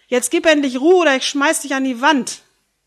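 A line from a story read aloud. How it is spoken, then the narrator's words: Bellowing. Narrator (German): Vattern … brüllt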